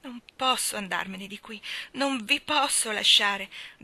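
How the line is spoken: Passionate pleading. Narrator (Italian): disse Steven con supplica ancora più appassionata

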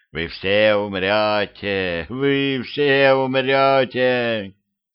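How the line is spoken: Shrill shriek. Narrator (Russian): Внезапно вместо рычания раздался визг

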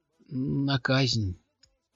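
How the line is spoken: Gloomy reply. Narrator (Russian): мрачно ответила Дафна

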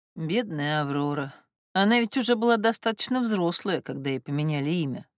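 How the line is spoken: Sighing. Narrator (Russian): вздохнула Гортензия Андреевна

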